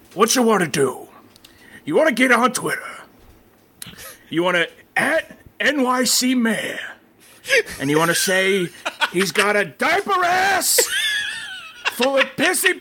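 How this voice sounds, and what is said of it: Loud angry imitation of another's voice. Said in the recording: “can you do a Pacino voice? ... we're doing like big Pacino ... angry Pacino”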